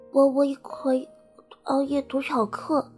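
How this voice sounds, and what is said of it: Soft, lisping childlike voice. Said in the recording (Chinese): “一个轻柔、口齿不清的声音说道”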